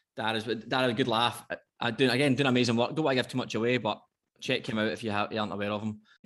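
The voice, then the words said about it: Thick regional accent. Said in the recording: “My accent is thick.”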